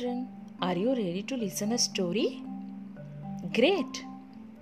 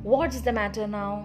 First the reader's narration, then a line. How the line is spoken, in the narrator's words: She asked angrily